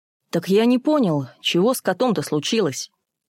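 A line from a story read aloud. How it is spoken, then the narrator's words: Deliberately gruff. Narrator (Russian): нарочито грубо сказал Бабкин, не выносивший женского плача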